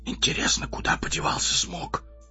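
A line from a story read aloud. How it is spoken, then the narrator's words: Whispered. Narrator (Russian): прошептал он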